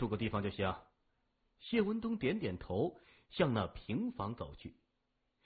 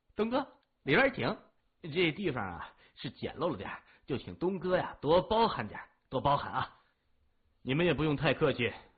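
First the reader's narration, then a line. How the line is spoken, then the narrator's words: Laughing. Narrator (Chinese): 老七 笑着说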